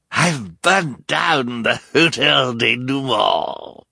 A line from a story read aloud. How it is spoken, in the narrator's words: Olaf cried